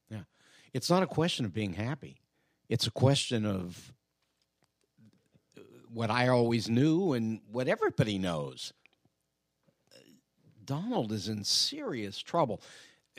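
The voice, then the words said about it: Quiet, low-energy, near-whispering voice. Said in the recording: “Why are you whispering? ... Why are you so low-key this morning? ... you sound low energy ... I'm recovering from a cold.”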